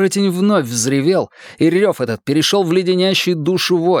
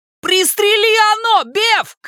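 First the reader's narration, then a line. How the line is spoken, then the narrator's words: Shout. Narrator (Russian): крикнул Ричи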